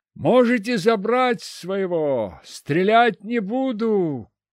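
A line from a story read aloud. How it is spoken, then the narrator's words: Shout down corridor. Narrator (Russian): крикнул в коридор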